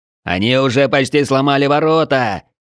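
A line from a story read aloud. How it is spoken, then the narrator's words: Distant shout. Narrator (Russian): крикнул кто-то со стены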